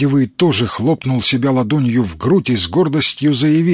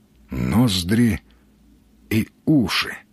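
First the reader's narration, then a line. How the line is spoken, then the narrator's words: Thoughtful mutter. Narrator (Russian): задумчиво пробормотал Сергей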